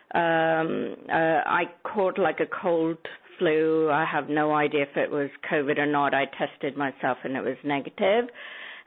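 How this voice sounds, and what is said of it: Sick, hoarse voice with sore throat. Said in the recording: “You can hear it in my voice. ... I've had this horrible cough that keeps happening and a sore throat”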